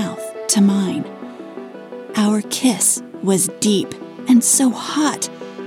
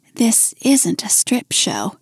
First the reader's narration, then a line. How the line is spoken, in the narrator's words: I murmured